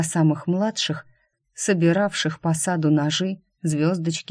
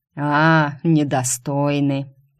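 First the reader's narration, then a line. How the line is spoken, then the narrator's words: Mocking mutter. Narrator (Russian): насмешливо пробурчал Ласка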